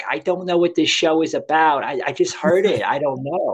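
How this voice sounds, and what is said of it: Imitates a woman's Italian accent. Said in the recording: “that's how she talked, you know, that Italian accent.”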